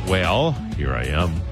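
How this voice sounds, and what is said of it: Put-on radio announcer voice. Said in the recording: “Did you just do a radio voice? ... I did. ... radio voice”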